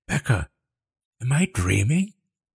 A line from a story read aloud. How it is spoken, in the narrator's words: She gasped